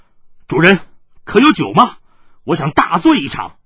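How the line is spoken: Loud voice. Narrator (Chinese): 云峥大声的说道

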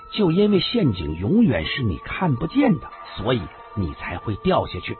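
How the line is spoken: Leisurely, amused. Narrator (Chinese): 华华凤突然又笑了笑，悠然的说道

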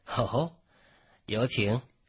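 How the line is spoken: Faint calm smile. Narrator (Chinese): 孟觉淡淡一笑

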